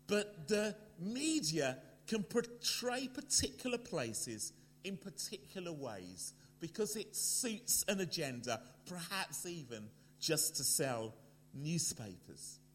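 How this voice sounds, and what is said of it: London English accent. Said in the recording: “you can hear from my accent, I am a Londoner”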